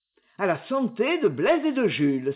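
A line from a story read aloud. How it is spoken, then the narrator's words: Exclaiming. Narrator (French): s'écria-t-il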